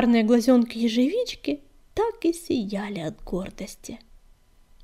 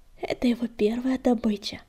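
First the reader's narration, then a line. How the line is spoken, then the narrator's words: Tender purr. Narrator (Russian): промурлыкала Златошейка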